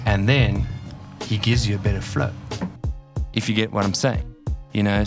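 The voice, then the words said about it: Raw South African accent. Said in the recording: “I still have that like raw South African accent”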